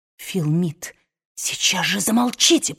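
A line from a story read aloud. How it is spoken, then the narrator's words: Hiss. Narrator (Russian): прошипела Мелани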